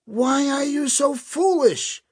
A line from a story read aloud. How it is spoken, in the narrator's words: a boy yelled out